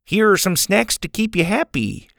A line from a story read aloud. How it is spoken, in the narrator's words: he said brightly